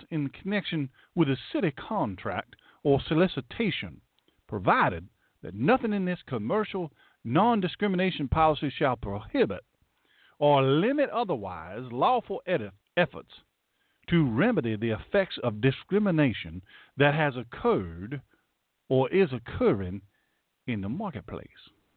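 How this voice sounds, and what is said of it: Put-on Southern US accent. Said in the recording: “my southern accent was probably dazzling you”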